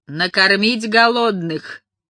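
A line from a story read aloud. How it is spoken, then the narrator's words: Bursting out laughing. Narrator (Russian): расхохоталась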